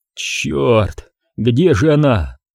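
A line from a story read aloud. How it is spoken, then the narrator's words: Groaned. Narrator (Russian): простонал Крис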